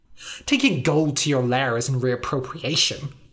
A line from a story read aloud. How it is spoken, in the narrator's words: said Kvok, sneering